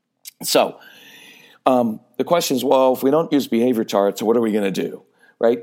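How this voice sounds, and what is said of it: Slightly raspy voice. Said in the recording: “My voice is a little bit raspy from talking all week.”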